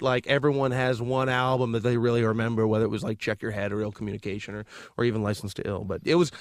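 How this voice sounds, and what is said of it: Usual voice. Nothing is said of it.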